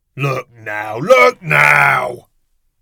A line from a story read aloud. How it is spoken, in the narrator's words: Walter bellows